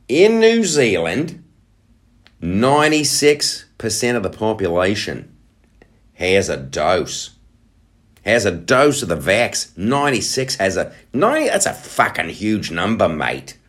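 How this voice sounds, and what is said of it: Put-on New Zealand accent. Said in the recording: “I'm looking at the numbers for New Zealand. Let's throw on an accent for that.”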